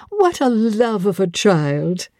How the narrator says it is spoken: Amy and Louise Eshton had cried out simultaneously

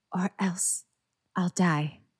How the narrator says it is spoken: Harry whispered

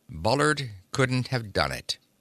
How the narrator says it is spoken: I said slowly

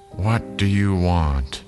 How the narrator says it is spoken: An old woman answered in a tired voice

